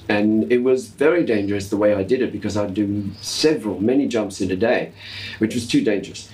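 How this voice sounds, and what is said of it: Australian accent slipping through. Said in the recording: “do you hear the Aussie accent come in there”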